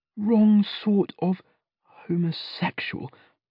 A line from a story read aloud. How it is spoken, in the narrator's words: under his breath